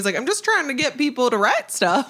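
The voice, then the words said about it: Very bad impression of someone's dad. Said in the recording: “my very bad impression.”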